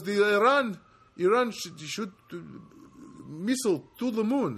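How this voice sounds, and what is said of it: Put-on Iranian-sounding accent, not great. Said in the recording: “that's not really a Spanish accent, is it? Now I'm doing an Iranian. ... sometimes I'm not great at accents.”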